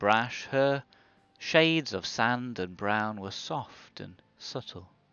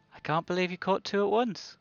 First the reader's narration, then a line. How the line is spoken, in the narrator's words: Laughing, Lucky replied